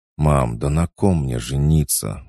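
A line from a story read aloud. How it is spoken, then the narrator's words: Tired drawl. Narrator (Russian): устало протянул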